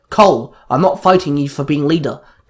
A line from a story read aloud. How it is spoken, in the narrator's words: Taylor snapped